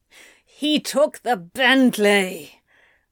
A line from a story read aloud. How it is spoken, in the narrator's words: Anthony growled